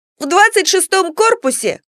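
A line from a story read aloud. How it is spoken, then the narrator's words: Loud interruption. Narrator (Russian): В голос громко перебил беседу матери и брата Степан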